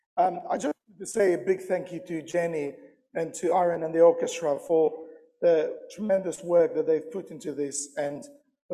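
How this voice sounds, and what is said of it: Croaky, quieter voice. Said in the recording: “apologize for my voice. Normally, I'm louder and less croakier than this”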